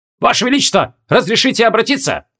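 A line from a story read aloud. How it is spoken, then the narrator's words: Bark from behind. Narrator (Russian): Гаркнули сзади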